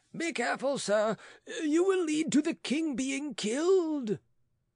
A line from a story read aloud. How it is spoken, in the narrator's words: Roederer cried